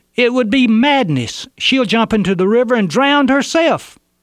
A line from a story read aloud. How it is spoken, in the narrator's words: One of those holding her yelled